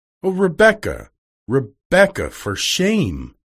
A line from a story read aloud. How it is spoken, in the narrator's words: cried Amelia